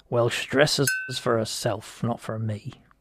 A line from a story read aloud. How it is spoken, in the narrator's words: muttered Judd